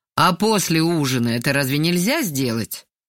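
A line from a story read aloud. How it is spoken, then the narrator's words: Displeased asking. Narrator (Russian): поинтересовался недовольным голосом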